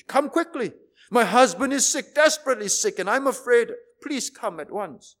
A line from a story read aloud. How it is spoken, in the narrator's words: she cried, her voice filled with anguish